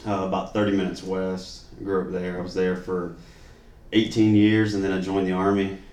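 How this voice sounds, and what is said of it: Slight regional accent. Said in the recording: “you probably hear a little accent”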